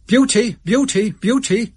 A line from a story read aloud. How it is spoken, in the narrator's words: I cried aloud